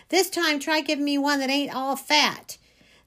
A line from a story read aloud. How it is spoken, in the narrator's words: hollering